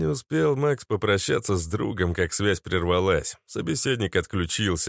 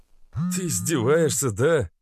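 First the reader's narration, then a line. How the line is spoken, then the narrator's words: Heavy sigh. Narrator (Russian): Тяжело вздохнул парень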